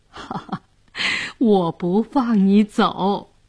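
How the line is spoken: Laughing. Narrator (Chinese): 姑姑笑着说

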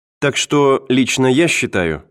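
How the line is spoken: Plain. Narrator (Russian): сказала она

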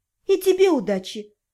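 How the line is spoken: Quiet reply. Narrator (Russian): негромко отозвалась я

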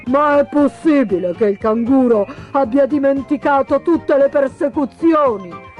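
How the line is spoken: Exclaiming. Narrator (Italian): esclamò il pellicano

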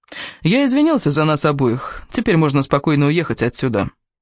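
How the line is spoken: Explaining. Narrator (Russian): пояснил Кевин

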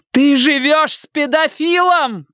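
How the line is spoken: Booming over noise. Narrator (Russian): прогремела Робин, перекрывая этот гам

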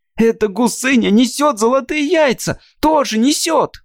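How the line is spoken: Shrill girl's shout. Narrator (Russian): пронзительно выкрикнула девочка

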